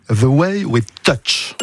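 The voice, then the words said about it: Deliberate English accent. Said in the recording (French): “je vous l'ai fait avec l'accent.”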